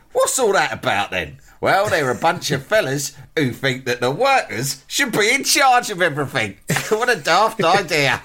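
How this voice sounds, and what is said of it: Sid James impression. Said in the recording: “our old friend Alex Lowe to do his Sid James impression”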